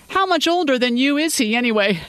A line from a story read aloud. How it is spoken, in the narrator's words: Rick asked, laughing as he did